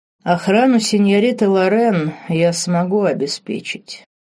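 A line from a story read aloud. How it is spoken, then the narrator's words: Cold duke. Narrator (Russian): холодно произнес герцог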